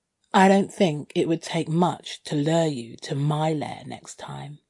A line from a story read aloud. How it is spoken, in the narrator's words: I purred